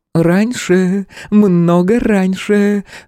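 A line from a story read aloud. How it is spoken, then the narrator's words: Tipsy giggle. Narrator (Russian): хмельно хихикнула Ирка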